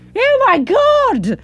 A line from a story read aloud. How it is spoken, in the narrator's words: I scream, a horrible realisation blossoming in my brain like a hemorrhage, but somewhat less devastating